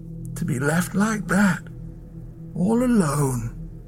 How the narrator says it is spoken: Ackley whispered

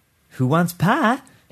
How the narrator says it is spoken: She asked in a bright, brittle voice

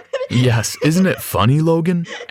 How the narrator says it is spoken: asked Dad, while he too laughed out loud

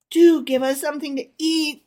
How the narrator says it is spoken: they whined

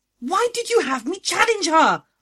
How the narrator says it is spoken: I shrieked

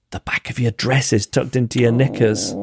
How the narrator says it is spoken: a sweet old lady, whispered in my ear

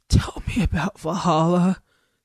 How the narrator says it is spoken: Goldie said in his treble rasp

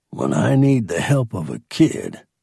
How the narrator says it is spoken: he growled

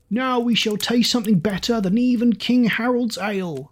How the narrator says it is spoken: shouted one

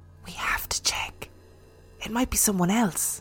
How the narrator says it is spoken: Serena whispered

